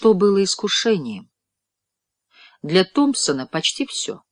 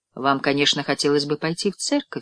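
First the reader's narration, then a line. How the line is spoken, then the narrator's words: Plain. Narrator (Russian): сказал я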